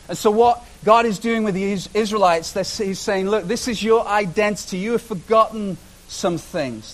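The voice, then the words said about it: British accent. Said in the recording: “my Britishness will show itself ... just like I have a British accent”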